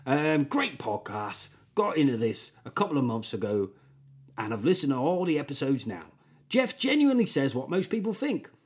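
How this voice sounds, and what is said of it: Put-on West Country accent. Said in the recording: “Gives me a chance to do a great West Country accent.”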